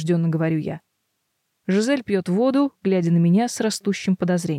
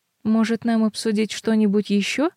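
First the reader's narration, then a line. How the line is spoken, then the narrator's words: Timid. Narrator (Russian): робко предлагает она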